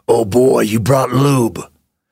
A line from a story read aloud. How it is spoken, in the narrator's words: he said in a growl